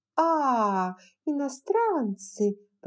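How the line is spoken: Uninterested drawl. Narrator (Russian): протянула Скарлетт, сразу потеряв к ним всякий интерес

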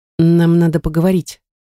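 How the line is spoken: Hesitant, uncertain. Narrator (Russian): произнесла неуверенно

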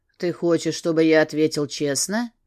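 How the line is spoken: Lifeless-voiced question. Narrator (Russian): спросил безжизненным голосом

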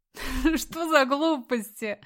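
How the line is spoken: Laughing. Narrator (Russian): засмеялась сестра

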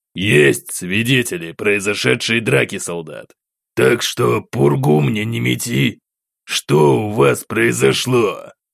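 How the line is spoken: Officer's growl. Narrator (Russian): рыкнул офицер

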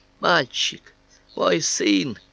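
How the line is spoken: Groan through gritted teeth. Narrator (Russian): простонал, заскрипев зубами

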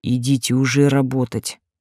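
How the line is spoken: Irritated growl. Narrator (Russian): не скрывая раздражения, рыкнул Берговец

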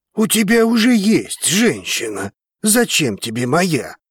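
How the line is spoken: Growling. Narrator (Russian): рыкнул Драгос

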